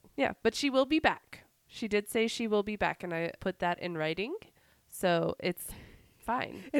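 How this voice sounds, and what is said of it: Raspy, deep voice from a cold. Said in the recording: “I have a cold. So forgive the raspy, sexy voice. ... the deep phone operator voice”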